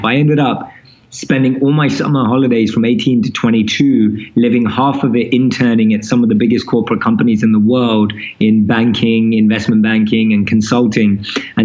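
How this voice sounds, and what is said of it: London accent. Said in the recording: “I'm born and raised in London, as you can probably tell from my accent.”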